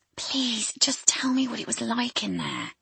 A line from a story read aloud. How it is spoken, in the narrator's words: she whispered